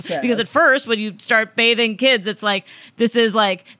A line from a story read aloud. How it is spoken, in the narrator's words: they scream